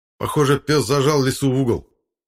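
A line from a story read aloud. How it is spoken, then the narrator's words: Shouted. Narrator (Russian): крикнул я Владимиру Вениаминовичу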